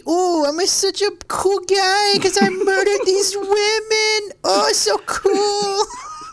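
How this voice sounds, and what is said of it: Mocking put-on character voice. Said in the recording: “I don't know what, like, a Washington accent would be ... shut the fuck up with the voice”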